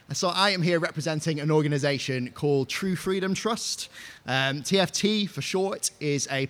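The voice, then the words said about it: Northwest English accent. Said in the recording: “As you can probably tell from my accent, I'm not from over here, so I live sort of just outside of Preston in the northwest of England”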